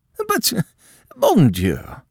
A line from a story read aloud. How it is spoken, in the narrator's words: cried the Countess